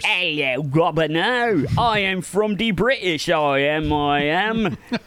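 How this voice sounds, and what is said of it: Deliberately bad Cockney accent. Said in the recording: “like Dick Van Dyke, terrible Cockney accent ... it needs to be worse. Much worse.”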